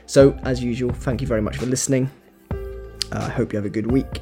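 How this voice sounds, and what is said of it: Strained, fading hoarse voice. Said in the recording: “My voice is going, as you can probably tell ... 4 hours of me singing at the top of my voice, completely out of tune. So that's why my voice is going”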